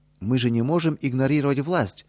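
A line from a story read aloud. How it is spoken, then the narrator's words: Exclaiming. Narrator (Russian): воскликнул Петр Федорович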